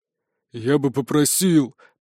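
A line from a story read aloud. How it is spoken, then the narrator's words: Grumbled. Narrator (Russian): пробурчал Смерч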